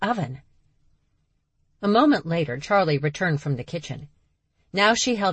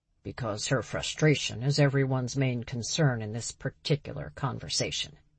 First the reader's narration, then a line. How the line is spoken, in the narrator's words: Vic muttered